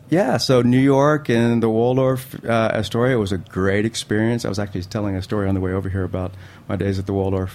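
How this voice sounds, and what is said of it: Slight Southern US twang. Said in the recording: “a little bit of that Southern comes from ... I'm hearing it now. It's coming out. ... A little twang.”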